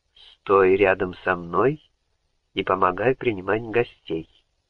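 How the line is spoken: Plain. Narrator (Russian): сказала тетя Лили

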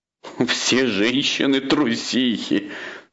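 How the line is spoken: King, contemptuous laugh. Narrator (Russian): сказал король и презрительно засмеялся

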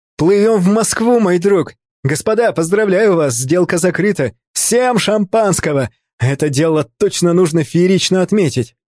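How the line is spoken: Excited smiling shout. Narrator (Russian): Артемий, все еще находясь под впечатлением от зрелища, с улыбкой закричал

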